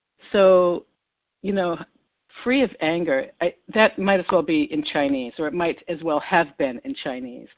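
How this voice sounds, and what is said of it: Boston accent. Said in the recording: “West Newton, Massachusetts, right next to Boston, which would explain my accent.”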